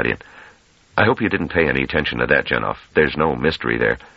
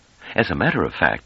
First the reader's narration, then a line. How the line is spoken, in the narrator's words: said Pellerette calmly